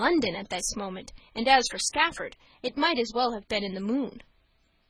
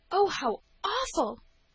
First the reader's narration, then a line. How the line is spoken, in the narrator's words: gasped